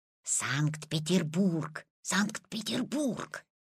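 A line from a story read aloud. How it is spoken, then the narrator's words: Old man's whisper. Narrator (Russian): зашептал Петин прапрадедушка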